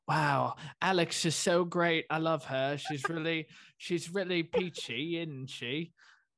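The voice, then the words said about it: Good put-on British accent. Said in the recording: “solid voice ... Great impression ... really good British accent.”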